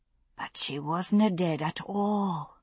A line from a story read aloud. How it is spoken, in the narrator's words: Lyra said softly